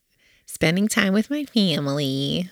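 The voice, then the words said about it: Says it in a funny voice. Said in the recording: “Why do you say it that way in a funny voice? ... makes you want to say that in a funny voice?”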